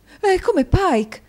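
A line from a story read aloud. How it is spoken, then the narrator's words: Exclaimed. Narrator (Italian): esclamò la signora Nickleby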